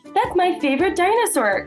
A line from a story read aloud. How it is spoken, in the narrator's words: Clementine giggled